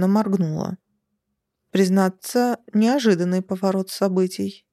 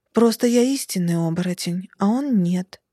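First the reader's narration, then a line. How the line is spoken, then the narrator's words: Calm man's reply. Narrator (Russian): спокойно откликнулся мужчина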